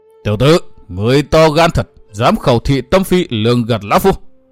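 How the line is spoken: Roaring shout. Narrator (Vietnamese): Hữu Cầu Tất Ứng mới gầm hét nói

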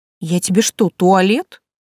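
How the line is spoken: Irritated grumble. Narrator (Russian): проворчала раздраженно

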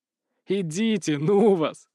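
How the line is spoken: Laughing. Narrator (Russian): хохотал Дмитрий

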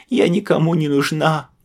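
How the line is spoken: Tearful female wailing. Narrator (Russian): Сквозь слезы причитала она

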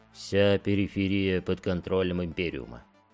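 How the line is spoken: Quiet speech. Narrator (Russian): тихо произнес Дорн

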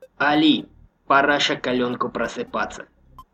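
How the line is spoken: Quiet rasp. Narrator (Russian): Роберт тихо прохрипел

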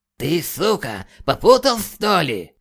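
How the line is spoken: Hoarse howl. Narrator (Russian): Хрипя взвыл Грейвуд

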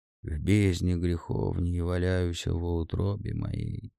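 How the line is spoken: Muttering. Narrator (Russian): бормотал он

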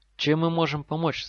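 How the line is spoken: Trembling question. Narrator (Russian): спросил Дин дрожащим голосом

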